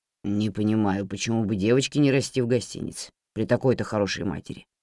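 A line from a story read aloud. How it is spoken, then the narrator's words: Grumbling. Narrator (Russian): пробурчал мистер Бердок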